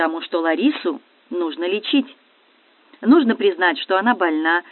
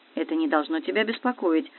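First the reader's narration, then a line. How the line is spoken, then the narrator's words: Even voice. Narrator (Russian): ровным голосом ответил Валерий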